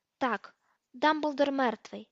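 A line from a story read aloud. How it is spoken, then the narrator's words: Calm. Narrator (Ukrainian): спокійно сказав Гаррі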